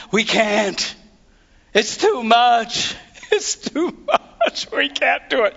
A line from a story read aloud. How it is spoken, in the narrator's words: these other little weasels were all crying and whining